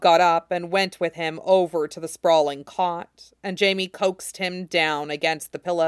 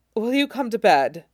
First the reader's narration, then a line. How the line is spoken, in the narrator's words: Jamie panted out